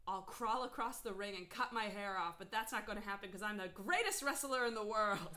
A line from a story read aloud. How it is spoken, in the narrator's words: George exclaimed